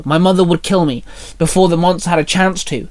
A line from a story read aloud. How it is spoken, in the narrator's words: Minnie snapped